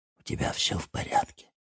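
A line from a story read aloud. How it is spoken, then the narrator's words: Stage whisper. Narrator (Russian): спросил я театральным шепотом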